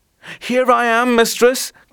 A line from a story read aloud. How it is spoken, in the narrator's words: cried Whitehead